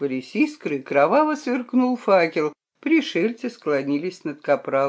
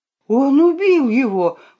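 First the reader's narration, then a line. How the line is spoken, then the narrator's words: Exclamation. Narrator (Russian): воскликнул кто-то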